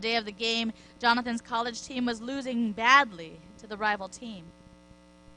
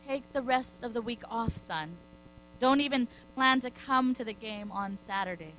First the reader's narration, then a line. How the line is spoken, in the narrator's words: The coach gently ... said